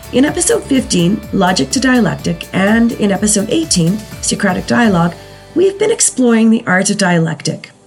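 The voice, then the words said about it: Strained, below-par sick voice. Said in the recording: “I know you can hear it. My voice is just not up to par today. I'm in the throes of a cold and my voice is always the most affected in these things.”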